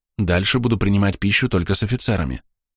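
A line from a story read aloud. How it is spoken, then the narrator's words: Quiet secretive whisper. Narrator (Russian): тихо прошептал я, чтобы не услышали мои подчиненные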